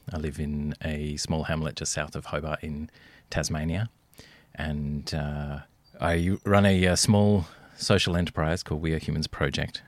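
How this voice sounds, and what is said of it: Australian accent. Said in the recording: “as you might hear from my accent, I'm coming to you from Australian soil”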